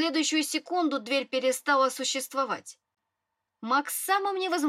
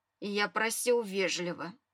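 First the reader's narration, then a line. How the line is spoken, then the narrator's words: Pointed heavy sigh. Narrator (Russian): показательно тяжело вздохнул и сказал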